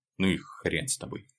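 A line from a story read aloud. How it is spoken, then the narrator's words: Sighing grumble. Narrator (Russian): буркнул Леха, вздыхая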